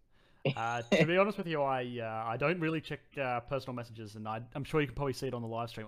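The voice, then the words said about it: Thick Australian accent. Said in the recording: “thick... Australian accent that disguises my age a little bit”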